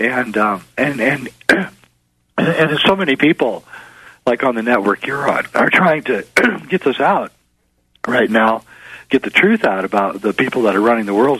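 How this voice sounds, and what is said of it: Hoarse, strained voice. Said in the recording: “I'm losing my voice now.”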